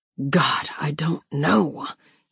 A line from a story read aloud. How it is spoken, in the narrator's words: he whispers, pained